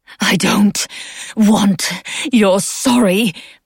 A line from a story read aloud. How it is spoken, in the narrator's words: Beth spat, lungs still fighting for air